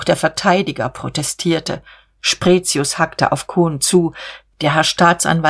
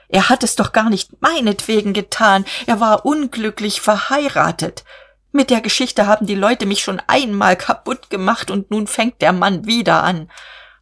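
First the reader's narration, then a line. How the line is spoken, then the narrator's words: Shrieking. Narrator (German): kreischte er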